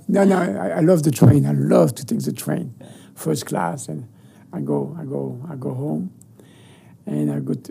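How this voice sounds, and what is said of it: French accent. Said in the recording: “American with a nice accent. ... Nice French accent.”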